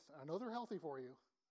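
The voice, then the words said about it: Sarcastic tone. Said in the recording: “That was sarcasm.”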